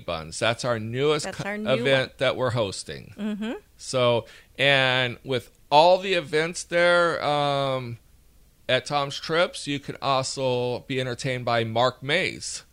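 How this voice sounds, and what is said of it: Alabama Southern accent. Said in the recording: “My Alabama accent”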